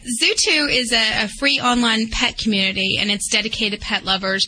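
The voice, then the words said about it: Southern American accent. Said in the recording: “Now you have this southern accent”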